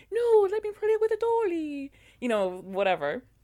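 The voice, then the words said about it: Attempted Irish accent. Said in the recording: “That was my attempt at an Irish accent. ... You're showing up your Irish accent.”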